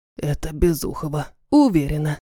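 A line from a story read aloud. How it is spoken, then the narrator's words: Whispered. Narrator (Russian): прошептала Матильда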